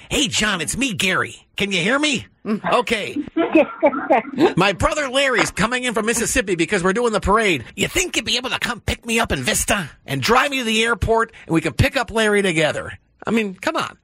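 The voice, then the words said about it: Imitates another person's voice. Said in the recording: “my best imitation of you”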